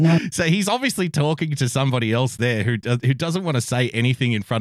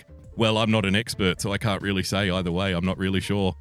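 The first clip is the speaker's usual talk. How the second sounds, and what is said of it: Trendy inner-city Australian accent. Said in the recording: “his very trendy inner city accent”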